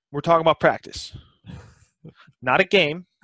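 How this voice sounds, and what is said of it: Imitates another person's voice. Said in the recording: “my Allen Iverson impression.”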